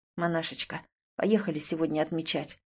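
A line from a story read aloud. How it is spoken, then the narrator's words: Hoarse. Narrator (Russian): хрипло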